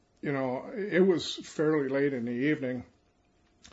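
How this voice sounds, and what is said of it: Usual voice. Nothing is said of it.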